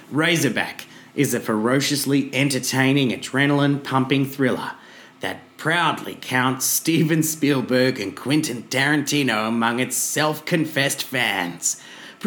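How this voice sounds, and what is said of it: Put-on Australian accent. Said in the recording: “I'm putting on the Australian mm-hmm. accent for it.”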